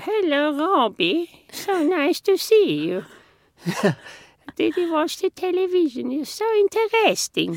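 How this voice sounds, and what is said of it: Imitation of grandmother's funny voice. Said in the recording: “she had a really funny voice ... I can do her voice ... That's how she spoke.”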